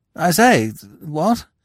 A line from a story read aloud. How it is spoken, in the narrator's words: observed feebly